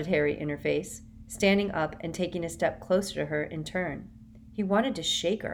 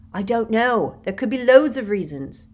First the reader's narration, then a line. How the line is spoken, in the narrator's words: Harry yelled at her